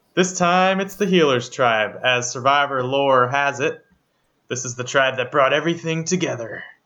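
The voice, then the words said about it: Imitates another person's voice. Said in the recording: “Was that a good Probst impression or no? ... I'm going to say it was awful”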